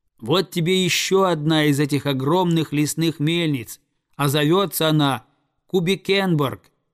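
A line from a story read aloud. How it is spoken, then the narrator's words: Eagle shouting. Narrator (Russian): закричал орел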